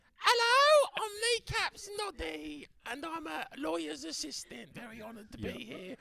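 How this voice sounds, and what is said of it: Character voice, different pitch. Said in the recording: “Sounds like you got a very similar accent, just a different pitch.”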